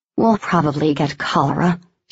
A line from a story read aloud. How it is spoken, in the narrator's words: Shelby muttered